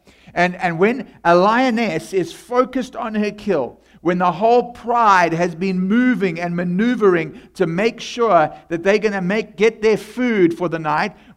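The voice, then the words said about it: South African accent. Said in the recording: “that's where my accent is from ... of South African”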